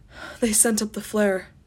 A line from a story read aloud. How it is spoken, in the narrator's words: he announced breathlessly